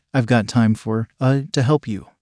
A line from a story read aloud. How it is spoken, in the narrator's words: I stammered